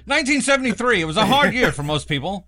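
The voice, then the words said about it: Mock newscaster voice. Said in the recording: “newscaster voice”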